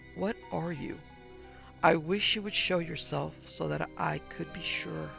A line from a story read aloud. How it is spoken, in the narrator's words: Howard Farragher was murmuring, almost to himself